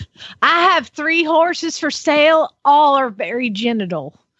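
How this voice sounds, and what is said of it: Put-on Southern Georgia accent. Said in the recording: “I've got a Southern one too ... her Southern and my Southern ... tell me the Okie accent there ... I am not Okie, but I'm from Georgia”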